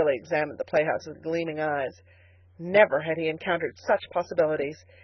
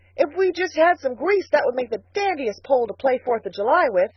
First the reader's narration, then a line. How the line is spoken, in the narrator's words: he shouted